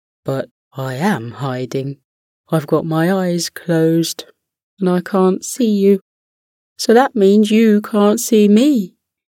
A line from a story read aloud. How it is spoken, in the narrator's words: Trying his best not to laugh, the chipmunk said